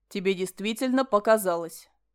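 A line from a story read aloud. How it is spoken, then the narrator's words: Cold. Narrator (Russian): холодно ответил Ален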